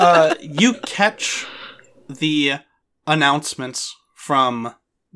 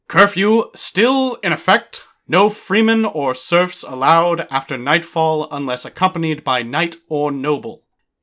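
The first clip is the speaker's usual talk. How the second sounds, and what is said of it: Town crier character voice. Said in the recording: “my best impression of the guy from Rome”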